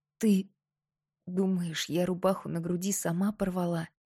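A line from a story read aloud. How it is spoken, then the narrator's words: Suddenly hoarse, gloomy question. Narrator (Russian): Внезапно севшим голосом хмуро Мирослава у подруги спросила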